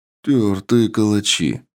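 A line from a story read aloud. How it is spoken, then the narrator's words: Officer's approving mutter. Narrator (Russian): одобрительно буркнул подполковник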